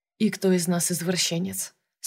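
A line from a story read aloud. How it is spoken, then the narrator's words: Quiet question. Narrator (Russian): спросил Юревский тихо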